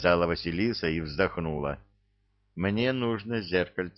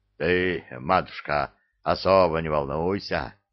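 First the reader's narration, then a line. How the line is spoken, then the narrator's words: Deep bass voice. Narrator (Russian): басил Иван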